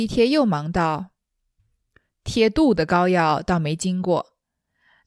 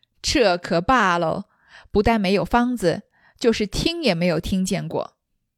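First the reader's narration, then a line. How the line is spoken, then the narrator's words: Laughing, clapping. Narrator (Chinese): 王一贴拍手笑道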